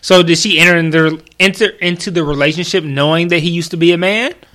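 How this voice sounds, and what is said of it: Fast, slurred speech. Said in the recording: “I'm slurring my words like I'm drunk, but I'm not ... I'm just like trying to talk too fast.”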